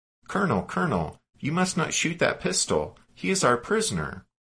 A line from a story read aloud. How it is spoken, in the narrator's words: exclaiming